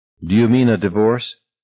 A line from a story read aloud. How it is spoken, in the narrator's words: She said it calmly enough, but he thought it was her voice in which he sensed panic now